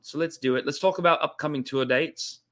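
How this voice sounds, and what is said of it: Put-on Australian accent. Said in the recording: “did the whole show tonight in Australian accent... that's not exactly how we sound... Probably a few things I could work on, but as a whole, better than most”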